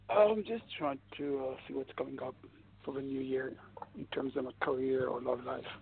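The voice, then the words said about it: Speaks with a noticeable accent. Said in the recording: “I love your accent.”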